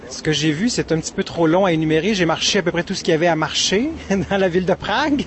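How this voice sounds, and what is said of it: A nice French accent. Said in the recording (French): “deux touristes avec un bel accent”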